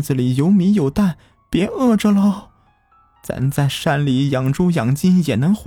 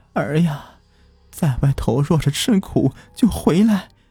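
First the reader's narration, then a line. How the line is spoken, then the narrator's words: Choked, tearful. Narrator (Chinese): 老伴儿流着长泪，颤动着嘴唇，哽咽道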